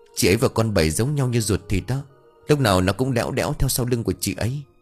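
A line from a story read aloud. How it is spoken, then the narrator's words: Soft reply. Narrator (Vietnamese): Hường chỉ khẽ đáp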